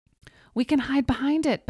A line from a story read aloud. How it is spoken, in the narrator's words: Betty screamed